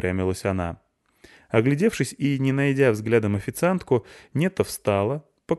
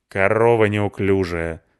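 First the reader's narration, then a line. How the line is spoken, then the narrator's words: Angry. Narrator (Russian): сказала моя Кабальдеса сердито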